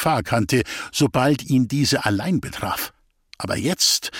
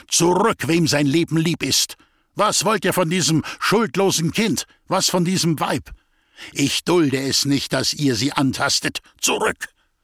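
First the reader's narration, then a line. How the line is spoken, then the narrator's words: Roaring lion-like shout. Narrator (German): rief mit einer Löwenstimme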